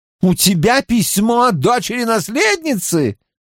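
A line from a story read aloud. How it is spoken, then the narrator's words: Exclaim. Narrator (Russian): воскликнул Гил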